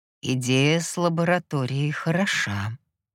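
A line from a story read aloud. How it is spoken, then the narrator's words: Absent-minded mumble. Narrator (Russian): промямлил гипнос, пребывая в своих мыслях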